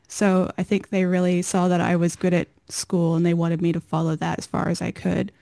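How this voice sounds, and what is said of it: American accent. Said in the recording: “my parents emigrated from America to Australia not long before I was born, so I have their accent somehow”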